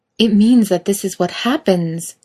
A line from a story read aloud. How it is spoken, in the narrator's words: Kate exclaims, frustrated